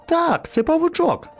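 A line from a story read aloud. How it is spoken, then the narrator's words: Exclaiming. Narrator (Ukrainian): вигукнув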